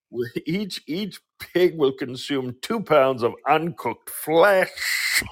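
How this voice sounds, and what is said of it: Imitates another person's voice. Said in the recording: “That was a very good impression of Alan Ford... It's like an extra C. That's like a German SCH.”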